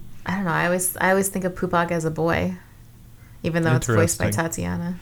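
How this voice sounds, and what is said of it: Usual voice. Nothing is said of it.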